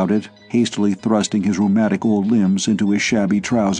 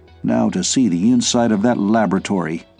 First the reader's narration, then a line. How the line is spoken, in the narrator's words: he chuckled to himself